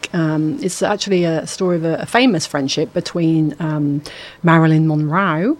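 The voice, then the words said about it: Put-on Australian accent. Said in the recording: “I don't know why I did that in an Australian accent.”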